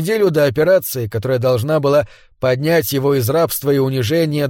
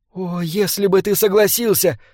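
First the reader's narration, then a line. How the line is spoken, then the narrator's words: Tearful insisting. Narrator (Russian): твердила она сквозь слезы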